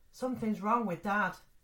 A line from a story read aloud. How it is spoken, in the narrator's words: shouts